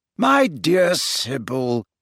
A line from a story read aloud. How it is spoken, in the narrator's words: said Dumbledore in a slightly exasperated voice